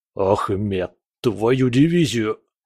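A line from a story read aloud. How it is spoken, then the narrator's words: Hoarse rasp. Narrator (Russian): прохрипел Мехмед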